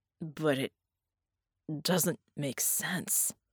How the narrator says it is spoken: Red croaked

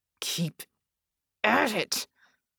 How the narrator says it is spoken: Red hissed, forcing each syllable out

